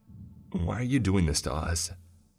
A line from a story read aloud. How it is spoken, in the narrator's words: Gabby asked in a shaky voice, clearly terrified by Kurt's reappearance